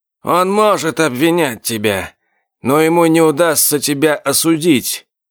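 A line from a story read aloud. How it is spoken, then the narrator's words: Even-voiced remark. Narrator (Russian): ровным голосом заметил Гринуэлл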